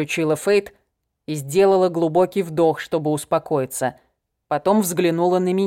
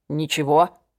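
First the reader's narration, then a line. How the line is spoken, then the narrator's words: Muttered. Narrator (Russian): пробормотал я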